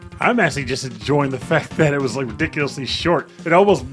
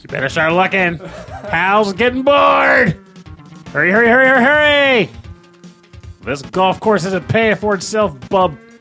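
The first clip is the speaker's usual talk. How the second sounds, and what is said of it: Silly put-on character voice. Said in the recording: “you have to do that voice ... this awful voice”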